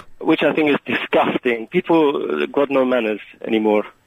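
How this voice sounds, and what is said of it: Badly slipping fake Czech accent. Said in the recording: “The accent slipped a bit, didn't it? ... A very bad accent? ... Whereabouts in the Czech Republic are you from, exactly?”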